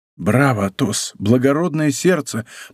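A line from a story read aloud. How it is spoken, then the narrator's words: Whisper. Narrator (Russian): прошептал Д'Артаньян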